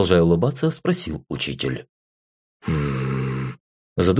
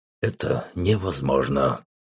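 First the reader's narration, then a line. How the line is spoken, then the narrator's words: Contemptuous snort. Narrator (Russian): презрительно фыркнул Рэм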